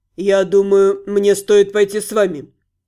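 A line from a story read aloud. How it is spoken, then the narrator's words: Calm. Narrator (Russian): спокойно произнес Спир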